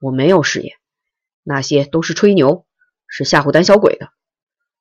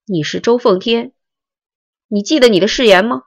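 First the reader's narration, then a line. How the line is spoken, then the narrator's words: Desperate yelling. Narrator (Chinese): 刘南征拼命的叫喊着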